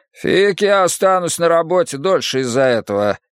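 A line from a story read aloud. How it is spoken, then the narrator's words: Grumbling. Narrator (Russian): проворчал один из рабочих другому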